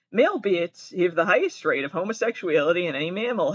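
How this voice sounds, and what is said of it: Massachusetts accent. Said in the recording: “I have an accent. I'm from Massachusetts.”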